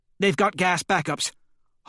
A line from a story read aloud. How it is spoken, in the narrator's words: Holliday barks